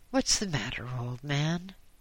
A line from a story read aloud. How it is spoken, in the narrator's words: asked a kindly voice